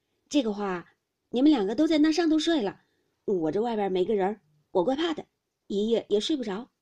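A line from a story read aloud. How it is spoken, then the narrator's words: Laughing. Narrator (Chinese): 宝玉笑道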